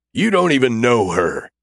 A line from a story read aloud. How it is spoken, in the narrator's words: the senator barks back at Smith